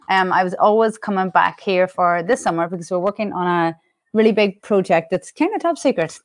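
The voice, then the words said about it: Mellowed Irish accent. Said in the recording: “I'm Irish, and the accent has never—it's mellowed over the years, but it's never going anywhere.”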